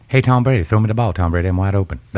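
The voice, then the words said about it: Southern accent, West Virginia-Mississippi mix. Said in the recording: “He's got the best accent in the world, like part West Virginia, part Mississippi or whatever. It's brilliant.”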